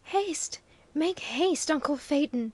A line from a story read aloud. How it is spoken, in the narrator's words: hoarsely panted Bruno